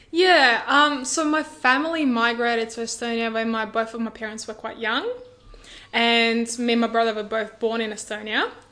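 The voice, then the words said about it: Accent of a speaker from Estonia. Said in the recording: “you've obviously come from Estonia ... your accent”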